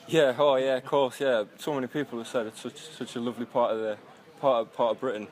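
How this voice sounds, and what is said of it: Northeast English accent. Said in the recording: “From your accent, I can tell you. But the northeast”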